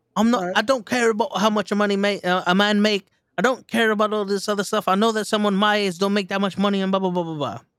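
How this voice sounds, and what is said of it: Mocking put-on accent. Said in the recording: “I'm saying an accent because it sounds ridiculous”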